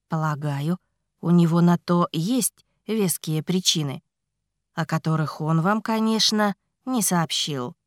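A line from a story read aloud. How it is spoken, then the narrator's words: Calm remark. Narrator (Russian): спокойно заметил Илар Дантре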